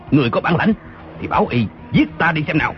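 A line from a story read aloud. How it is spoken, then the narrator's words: Angry reply. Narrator (Vietnamese): Tư Mã Lâm giận dữ đáp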